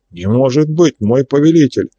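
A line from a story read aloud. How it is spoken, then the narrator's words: Stout man exclaiming. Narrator (Russian): воскликнул толстый приземистый шляхтич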